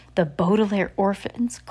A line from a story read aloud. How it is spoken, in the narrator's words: cried Sir